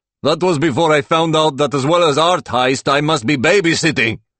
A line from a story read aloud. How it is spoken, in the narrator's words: Igor shouts